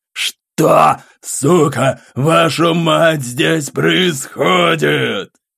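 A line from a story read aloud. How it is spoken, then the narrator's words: Angry growl. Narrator (Russian): Зарычал Шевцов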